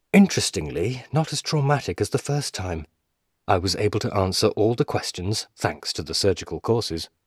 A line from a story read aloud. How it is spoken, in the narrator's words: replied